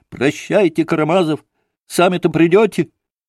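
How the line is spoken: Sharp angry shout. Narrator (Russian): резко и сердито крикнул он Алёше

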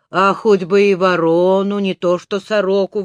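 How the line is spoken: Old woman grumbling. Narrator (Russian): ворчала старушка

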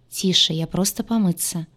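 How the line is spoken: Said calmly. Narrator (Russian): спокойно сказал

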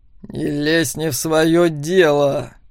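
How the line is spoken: Muttered through clenched teeth. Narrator (Russian): вновь процедил сквозь зубы Макс

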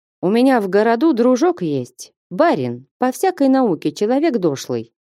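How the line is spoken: Plain. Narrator (Russian): сказал он

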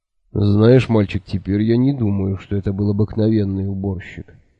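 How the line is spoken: Sighing. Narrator (Russian): вздохнул Кофа

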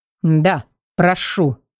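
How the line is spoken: Through teeth, near growl. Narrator (Russian): процедил едва не рыча

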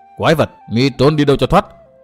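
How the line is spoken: Loud shout. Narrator (Vietnamese): Từ Mã Minh hét to

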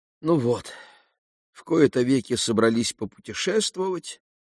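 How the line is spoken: Sighing mother. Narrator (Russian): вздохнула мама

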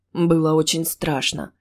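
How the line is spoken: Anxious sigh, young man. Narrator (Russian): вздохнул парень беспокойно

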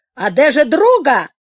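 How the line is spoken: Grandmother shouting. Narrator (Russian): Бабушка закричала

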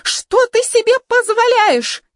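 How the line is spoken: Hysterical scream. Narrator (Russian): истерически завопила та

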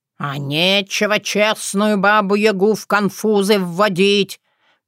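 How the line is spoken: Guilty grumble. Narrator (Russian): проворчала я, виновато

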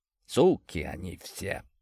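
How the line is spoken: Mumbled. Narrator (Russian): пробормотал Степаныч

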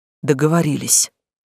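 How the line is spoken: Grumbling, girl. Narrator (Russian): буркнула девушка

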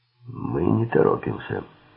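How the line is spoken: Rasping. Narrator (Russian): прохрипел Силк

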